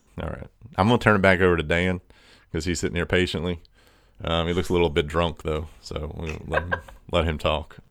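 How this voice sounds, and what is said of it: Strained, fading voice. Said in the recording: “I'm kind of losing my voice.”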